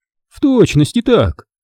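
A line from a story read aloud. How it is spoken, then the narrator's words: Exclamation. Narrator (Russian): воскликнул Лаврентий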